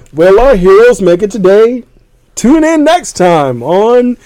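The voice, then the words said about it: Dramatic TV announcer voice. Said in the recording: “I have that Batman announcer voice in my head like this.”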